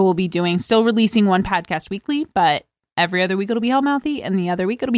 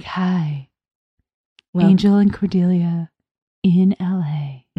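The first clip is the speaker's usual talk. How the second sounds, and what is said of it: Noir-style radio announcer voice. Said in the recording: “I'm doing a radio voice... It's a very like noir-y smoke wafts through the air.”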